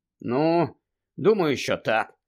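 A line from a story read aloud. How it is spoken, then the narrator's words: Sighing. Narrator (Ukrainian): зітхнув Гаррі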